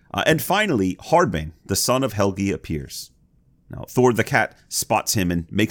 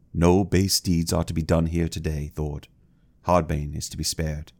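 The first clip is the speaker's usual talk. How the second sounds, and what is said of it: Deep voice for a boy character. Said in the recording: “That's a pretty deep voice for a 12-year-old.”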